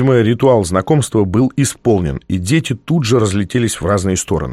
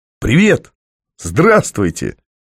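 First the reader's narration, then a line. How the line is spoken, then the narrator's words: Strained forced exclamation. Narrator (Russian): Я выдавил немного натужную улыбку и воскликнул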